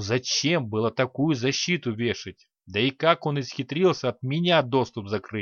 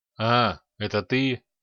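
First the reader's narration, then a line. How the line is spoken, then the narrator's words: Grumble. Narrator (Russian): пробурчал повар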